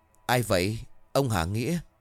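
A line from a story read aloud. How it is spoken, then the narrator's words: Trembling called-out question. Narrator (Vietnamese): Nó run rẩy hỏi vọng ra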